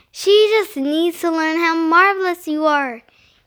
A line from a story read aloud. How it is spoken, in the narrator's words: he said